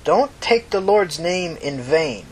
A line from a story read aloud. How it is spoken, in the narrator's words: she said slowly